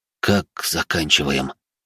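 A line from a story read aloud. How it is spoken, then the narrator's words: Whisper. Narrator (Russian): прошептал Алекс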